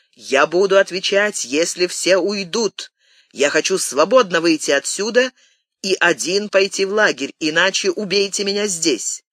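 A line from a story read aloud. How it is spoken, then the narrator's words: Shouted. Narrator (Russian): Француз закричал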